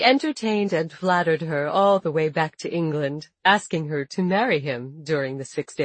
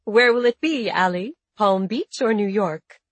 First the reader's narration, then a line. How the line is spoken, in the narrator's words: Ali laughed